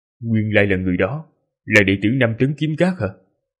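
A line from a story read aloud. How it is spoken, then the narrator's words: Muttering. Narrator (Vietnamese): Hắn lẩm bẩm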